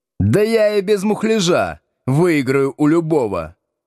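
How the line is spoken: Yell across room. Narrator (Russian): заорал он через весь класс

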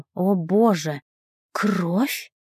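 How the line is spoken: Breathless exhale. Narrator (Russian): выдохнула

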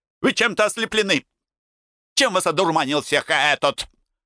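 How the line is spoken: Yelling. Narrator (Russian): Брегель и вопила

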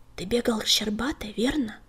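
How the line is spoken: Whispered question. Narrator (Russian): шепотом спросил клубок

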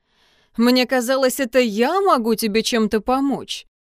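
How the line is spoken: Cheerful. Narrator (Russian): весело сказал Алистер

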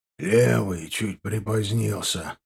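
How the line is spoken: Grumbling. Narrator (Russian): проворчал Гудович

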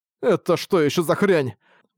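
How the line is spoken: Grumbling. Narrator (Russian): пробурчал Арк

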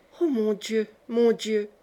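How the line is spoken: Murmur. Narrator (French): murmura le bon Pierrotte

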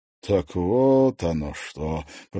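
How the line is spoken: Drawled. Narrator (Russian): протянул Корф

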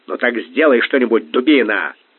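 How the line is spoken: Angry bark. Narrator (Russian): озлясь рявкнул Бангал

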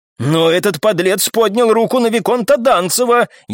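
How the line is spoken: Shout with barely contained rage. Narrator (Russian): еле сдерживая ярость, прокричал аристократ

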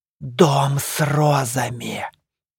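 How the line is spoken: Whisper. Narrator (Russian): прошептала

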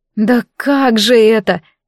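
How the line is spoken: Breathless female exhale. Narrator (Russian): выдохнула я

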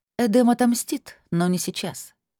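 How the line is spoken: Dry. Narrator (Russian): сухо произнесла Сара

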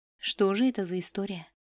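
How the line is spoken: Whisper to nobody. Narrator (Russian): прошептал он в пустоту

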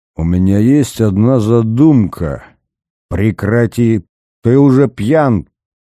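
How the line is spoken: Growled. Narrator (Russian): прорычал Корнев

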